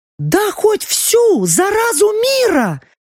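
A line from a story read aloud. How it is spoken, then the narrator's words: Exclaimed. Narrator (Russian): воскликнула Лаура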